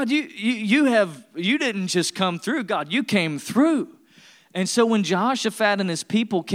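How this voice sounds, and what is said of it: Usual voice. Nothing is said of it.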